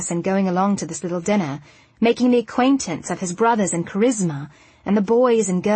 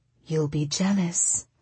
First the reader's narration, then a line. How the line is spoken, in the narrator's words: Hercules whispered back